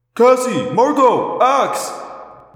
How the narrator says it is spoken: I yelled

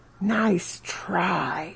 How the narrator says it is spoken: whispering to his mom, says

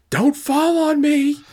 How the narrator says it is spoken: a fan scream out

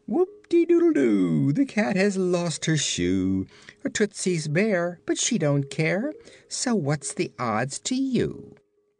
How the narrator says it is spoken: Scraps laugh more heartily than ever, she said

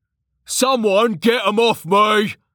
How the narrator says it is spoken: Jax shouted

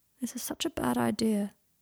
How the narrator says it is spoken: said Draco sadly

